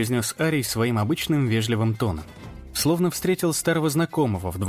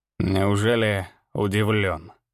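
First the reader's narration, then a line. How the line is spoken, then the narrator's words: Mocking question. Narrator (Russian): насмешливо спросил Зверолов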